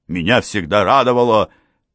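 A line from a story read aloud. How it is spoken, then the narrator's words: Agitated voice. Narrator (Russian): сказал король взволнованным голосом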